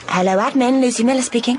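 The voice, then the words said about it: Put-on formal telephone voice. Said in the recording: “Is that your telephone voice?”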